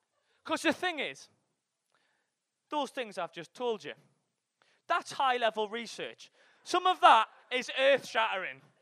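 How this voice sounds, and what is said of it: Geordie accent. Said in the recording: “when you tell that kind of material in a Geordie accent, it doesn't sound earth shattering. It sounds fucking simplistic”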